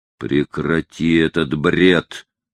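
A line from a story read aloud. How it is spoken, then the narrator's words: Growl. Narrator (Russian): прорычал Лаусон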